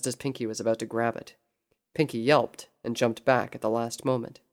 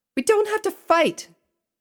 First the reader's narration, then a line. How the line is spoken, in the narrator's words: Pinky cried out